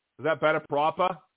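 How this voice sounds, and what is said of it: Put-on Boston accent. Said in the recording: “You do a proper Boston accent for me? ... Is that someone from Boston would say proper? I think that one is a little better, at least.”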